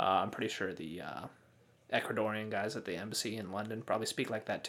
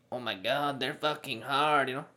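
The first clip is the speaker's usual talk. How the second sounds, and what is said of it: Put-on LA Cholo Mexican accent. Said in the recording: “that's like a like a LA Cholo Mexican accent.”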